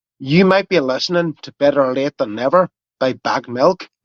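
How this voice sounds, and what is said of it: Put-on Belfast Northern Irish accent. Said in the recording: “This is Patrick from Belfast ... I've let my accent slip a little bit ... I'm not good at regional accents. So, I was thinking it was more Scottish, actually”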